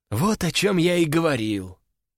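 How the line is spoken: Sigh. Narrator (Russian): вздохнул человек

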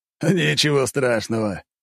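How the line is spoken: Chuckling former emperor. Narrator (Russian): бывший император хохотнул

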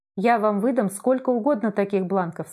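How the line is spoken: Plain. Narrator (Russian): сказал Ленин

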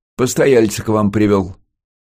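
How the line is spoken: Cheerful shout. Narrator (Russian): весело крикнул контрразведчик

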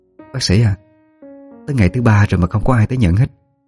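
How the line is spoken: Hesitant. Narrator (Vietnamese): Cô ngập ngừng mở lời

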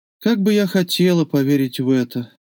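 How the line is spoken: Tired. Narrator (Russian): сказала устало

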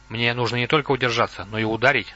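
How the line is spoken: Plain. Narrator (Russian): сказал Лотар

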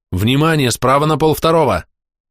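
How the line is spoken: Shouted. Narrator (Russian): крикнул я гарпунерам

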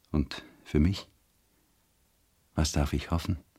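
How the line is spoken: Soft lisping. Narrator (German): lispelte er leise

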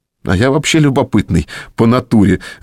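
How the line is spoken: Laughing. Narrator (Russian): рассмеялся Саша

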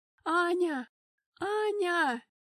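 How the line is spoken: Frantic shout, unrecognizable voice. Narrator (Russian): Не своим голосом кричала Эльза в холле

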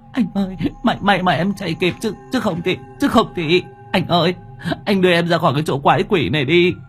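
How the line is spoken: Relieved sobbing. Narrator (Vietnamese): My mừng rỡ thút thít

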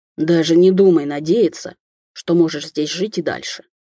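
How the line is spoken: Near growl from above. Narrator (Russian): услышала над головой почти рычание

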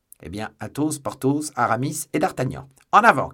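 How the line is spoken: Shouted. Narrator (French): cria Athos

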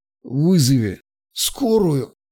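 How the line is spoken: Hoarse rasp. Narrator (Russian): прохрипел

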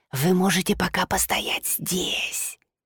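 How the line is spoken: Whispered. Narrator (Russian): Все это он говорил шепотом

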